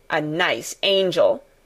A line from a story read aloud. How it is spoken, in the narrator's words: Colin sneered ferociously